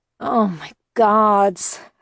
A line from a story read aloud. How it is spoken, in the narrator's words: I groaned